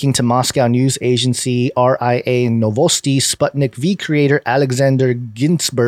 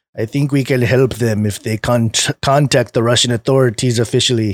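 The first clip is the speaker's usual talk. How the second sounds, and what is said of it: Bad put-on Russian accent. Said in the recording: “That was a bad Russian accent. ... it was falling into a Kissinger”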